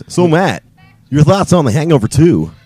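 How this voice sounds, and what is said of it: Put-on radio announcer voice. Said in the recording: “do my radio voice? ... That was actually a pretty good radio voice.”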